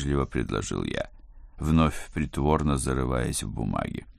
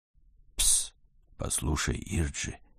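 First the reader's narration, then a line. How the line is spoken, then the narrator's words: Sympathetic whisper. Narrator (Russian): Флеврити зашептал самым сердобольным тоном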